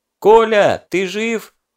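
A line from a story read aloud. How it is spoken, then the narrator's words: Shouted. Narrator (Russian): крикнул Задов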